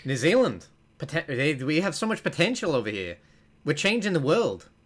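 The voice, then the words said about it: Attempted New Zealand accent. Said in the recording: “if this is a bad accent,”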